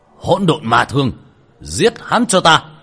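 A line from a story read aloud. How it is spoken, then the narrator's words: Shouted command. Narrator (Vietnamese): Hắn quát lên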